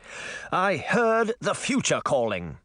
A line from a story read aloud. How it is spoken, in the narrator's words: Charming said angrily